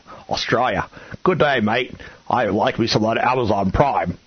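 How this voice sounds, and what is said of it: Bad put-on Australian accent. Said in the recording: “that's the worst Australian accent I've ever heard ... the worst Australian accent of all time”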